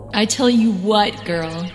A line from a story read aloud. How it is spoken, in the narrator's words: he bellowed while chuckling